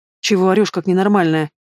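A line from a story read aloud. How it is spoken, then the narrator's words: Grumbling reply. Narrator (Russian): проворчала в ответ Дениур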